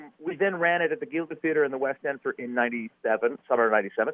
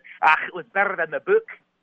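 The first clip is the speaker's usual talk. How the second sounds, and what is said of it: Imitated Scottish accent. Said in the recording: “His Scottish accent was better than mine.”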